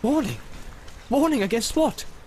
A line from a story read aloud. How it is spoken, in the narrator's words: said Boromir sharply